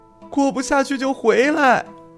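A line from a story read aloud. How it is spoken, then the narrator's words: Sobbing shout. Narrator (Chinese): 披头散发的三文鱼子太太捂脸痛哭，冲着店门外的玉子小姐离开的方向喊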